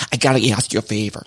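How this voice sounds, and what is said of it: Impression of Gina. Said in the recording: “That was a good Gina impression.”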